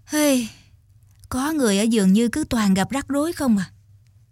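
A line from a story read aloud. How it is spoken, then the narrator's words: Sighing. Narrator (Vietnamese): Mẹ thở dài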